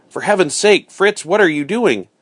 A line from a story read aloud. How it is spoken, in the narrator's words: Alarmed now, I cried